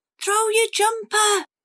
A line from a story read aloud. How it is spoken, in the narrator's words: Cassie yelled